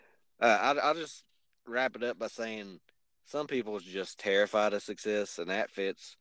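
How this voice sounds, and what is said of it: Usual voice. Nothing is said of it.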